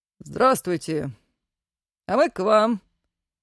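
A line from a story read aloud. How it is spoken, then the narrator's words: Cheerful young man. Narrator (Russian): весело отозвался один из прибывших, молодой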